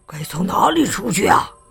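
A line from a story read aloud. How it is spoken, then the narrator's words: Low voice. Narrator (Chinese): 有人低声说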